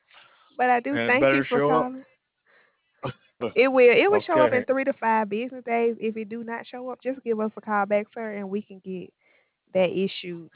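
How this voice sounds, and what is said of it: Sweet-sounding foreign accent. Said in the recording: “such a sweet accent ... I like your accent”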